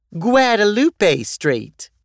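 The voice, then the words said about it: Exaggerated Texan twang. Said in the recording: “with an exaggerated Texan twang ... her South Texas accent”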